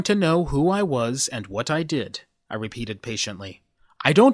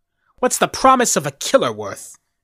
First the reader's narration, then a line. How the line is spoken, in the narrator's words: he asked bitterly